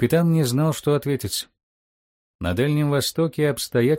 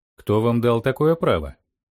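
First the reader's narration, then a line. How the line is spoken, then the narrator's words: Stern tsar's question. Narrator (Russian): строго спросил царь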